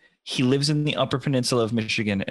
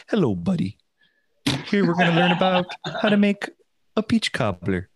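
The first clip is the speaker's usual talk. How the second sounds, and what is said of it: Soft, thick Upper Michigan accent. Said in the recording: “he talks really softly ... this thick, almost Canadian accent, but it's just like a Uper accent.”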